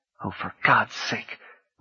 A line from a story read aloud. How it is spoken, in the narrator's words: Rini murmured